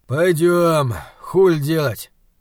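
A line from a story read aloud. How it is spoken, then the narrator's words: Exhaled. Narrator (Russian): выдохнул Атом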